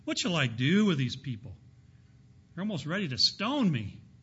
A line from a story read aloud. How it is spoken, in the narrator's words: Moses cried unto Yahweh, saying